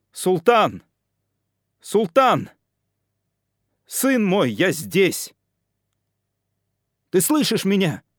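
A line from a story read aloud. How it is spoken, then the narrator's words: Shouting. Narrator (Russian): Кричал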